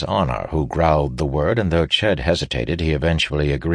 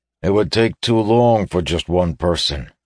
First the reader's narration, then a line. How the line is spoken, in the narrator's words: he said gruffly